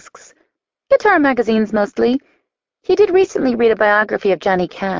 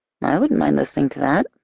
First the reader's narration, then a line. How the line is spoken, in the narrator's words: I murmur